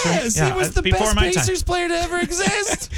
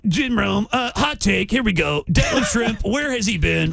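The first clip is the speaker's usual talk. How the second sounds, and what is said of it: Imitates another person's voice. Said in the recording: “did an impression of”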